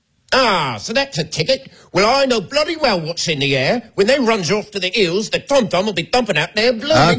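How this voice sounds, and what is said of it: Put-on Cockney accent. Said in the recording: “You do a Cockney accent?”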